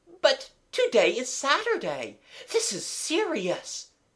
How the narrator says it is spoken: gasped Amanda

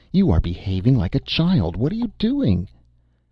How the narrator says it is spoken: she cried at last

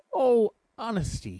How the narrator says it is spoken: he cried

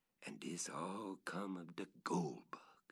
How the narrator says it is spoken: with a deep sigh, he exclaimed, as if in a soliloquy

